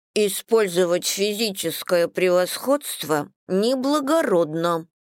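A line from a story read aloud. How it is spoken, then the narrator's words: Lisping through a straw. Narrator (Russian): прошепелявила она через трубочку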